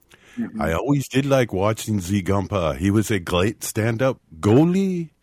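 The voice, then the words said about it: Put-on French-Canadian accent. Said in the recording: “accent, too ... French-Canadian”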